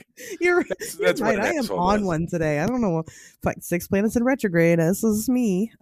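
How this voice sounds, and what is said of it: Strong Midwestern American accent. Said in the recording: “Your Midwestern accent's flaring up”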